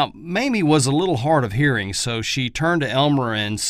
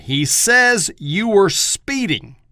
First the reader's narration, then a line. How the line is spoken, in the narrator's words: Elmer yelled at her